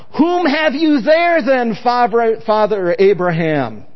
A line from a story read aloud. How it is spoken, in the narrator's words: He called out